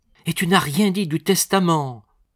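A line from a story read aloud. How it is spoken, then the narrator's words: Exclaimed. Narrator (French): s'écria Annie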